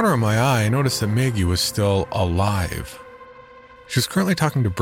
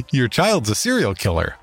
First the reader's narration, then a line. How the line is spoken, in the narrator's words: I laughed a little too hard, and said